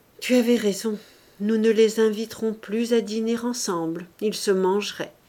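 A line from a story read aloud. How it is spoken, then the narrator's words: Heavy sigh. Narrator (French): Il dit avec un gros soupir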